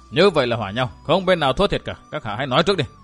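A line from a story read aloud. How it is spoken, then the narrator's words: Cold. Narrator (Vietnamese): Chàng lạnh lùng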